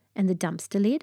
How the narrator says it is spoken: I asked

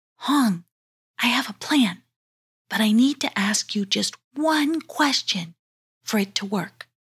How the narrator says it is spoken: very calmly, she whispered

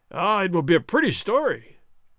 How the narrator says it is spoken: Gonzales cried

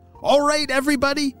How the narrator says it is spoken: shouted Apollo as he tried to get all the wasps' attention

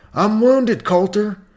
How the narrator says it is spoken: Potts cried out

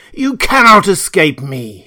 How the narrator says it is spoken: he roared

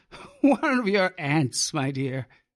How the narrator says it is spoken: he chuckled

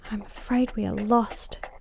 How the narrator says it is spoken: she whispered in my ear

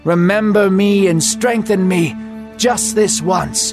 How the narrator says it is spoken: he shouted

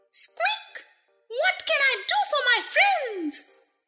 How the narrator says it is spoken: the Queen herself, who asked in her squeaky little voice

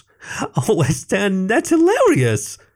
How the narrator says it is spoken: He continued to giggle

